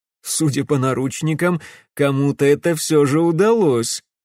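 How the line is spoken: Laughing. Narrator (Russian): рассмеялся Прохор

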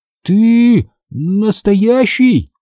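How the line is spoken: Exclaiming. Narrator (Russian): воскликнул я

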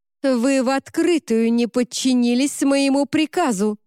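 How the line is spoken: Barked, stern woman. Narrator (Russian): рявкнула кардинал

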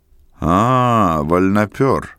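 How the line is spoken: Condescending deep voice. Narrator (Russian): снисходительно пробасил он

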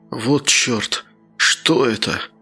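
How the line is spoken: Mumbling. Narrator (Russian): бормотал он

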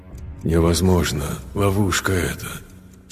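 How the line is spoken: Very faint inner whisper. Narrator (Russian): шепнул разум, но до того тихо

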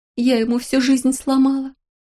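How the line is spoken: Sobbing. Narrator (Russian): рыдала Леня

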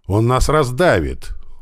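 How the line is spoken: Soldier exclaiming. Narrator (Russian): воскликнул один из номеров

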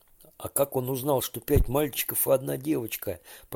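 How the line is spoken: Whisper. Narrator (Russian): прошептал Женя

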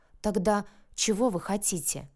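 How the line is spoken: Whisper. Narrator (Russian): шепнула я

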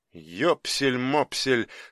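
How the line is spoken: Disgusted mutter. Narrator (Russian): с омерзением пробормотал Крымов

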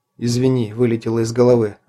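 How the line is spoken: Plain. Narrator (Russian): ответил Лобов

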